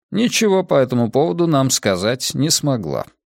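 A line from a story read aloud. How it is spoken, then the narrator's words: Dry. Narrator (Russian): сухо проговорил Лео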